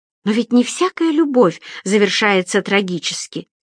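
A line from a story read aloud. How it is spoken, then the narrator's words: Child's grandiloquent exclamation. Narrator (Russian): патетично воскликнул малыш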